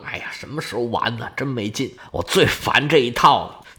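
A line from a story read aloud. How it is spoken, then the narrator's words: Bored grumbling. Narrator (Chinese): 他对这些啊表面功夫没什么兴趣，嘴里嘟嘟囔囔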